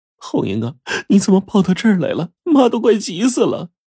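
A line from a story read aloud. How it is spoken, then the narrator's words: Crying young mother. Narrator (Chinese): 一个二十多岁的女人，哭了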